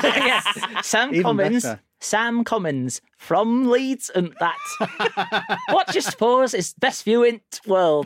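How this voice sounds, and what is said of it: Attempted Leeds accent. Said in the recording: “are you not going to do it in the accent of the people? ... can we have it in a Leeds accent? ... I really appreciated the int world.”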